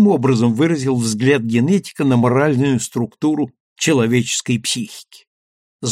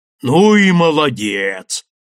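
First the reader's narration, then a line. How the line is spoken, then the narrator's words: Sudden booming. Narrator (Russian): неожиданно прогудел Андреев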